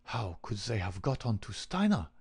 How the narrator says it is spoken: he muttered

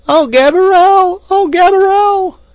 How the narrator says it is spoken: at the top of her lungs

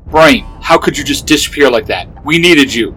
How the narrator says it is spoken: Hart growled

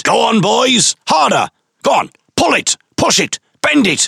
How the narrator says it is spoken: he gleefully shouted

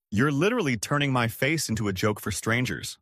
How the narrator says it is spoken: I said

